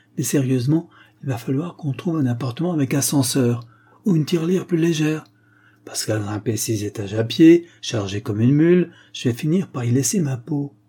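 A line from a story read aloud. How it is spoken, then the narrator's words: Exclaiming. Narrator (French): s'exclama-t-il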